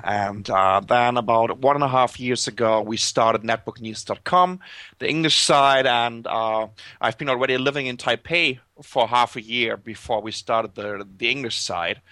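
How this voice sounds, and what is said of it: German accent. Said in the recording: “as you can tell by my accent, I'm German”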